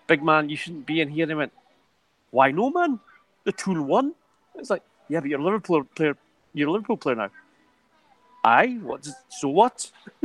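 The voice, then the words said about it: Bad Geordie accent. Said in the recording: “sorry for the bad Geordie accent”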